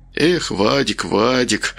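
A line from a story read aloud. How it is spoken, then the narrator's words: Mutter. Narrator (Russian): пробормотал он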